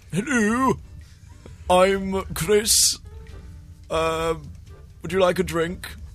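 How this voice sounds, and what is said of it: Put-on posh English accent. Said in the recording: “Hugh Grant style... I'm doing the English accent, am I?... Yeah, Hugh Grant.”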